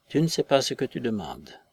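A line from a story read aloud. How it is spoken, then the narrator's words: Weak murmur. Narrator (French): murmura le lieutenant d'Hubert d'une voix faible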